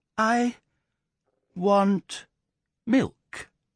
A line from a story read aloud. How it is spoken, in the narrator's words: he startled the family by remarking very slowly but very correctly